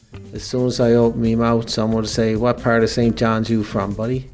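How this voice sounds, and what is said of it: St. John's townie Newfoundland accent. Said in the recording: “You wanted to record my voice because of my accent, and I assume it's because I'm a townie ... a great accent”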